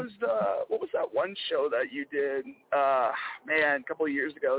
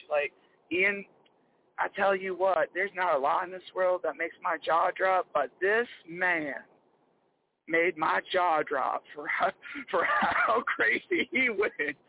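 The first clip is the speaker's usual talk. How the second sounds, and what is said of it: Imitates another person's voice. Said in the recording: “trying to do my best Yvonne voice”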